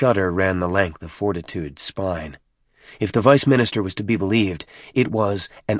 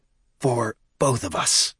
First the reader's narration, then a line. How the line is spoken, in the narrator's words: added in a conspiratorial whisper